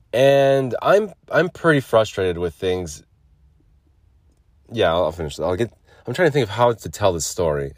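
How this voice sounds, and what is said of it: Sick-sounding voice. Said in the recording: “you can still tell in my voice, I'm sick”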